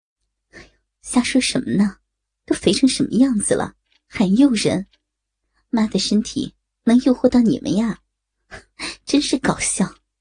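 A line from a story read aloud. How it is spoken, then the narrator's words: Laughing. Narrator (Chinese): 笑道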